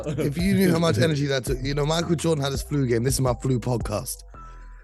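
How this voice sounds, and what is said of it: Strained, nearly lost voice. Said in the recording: “My voice is on about 1% left ... I got about 1% battery left in my voice”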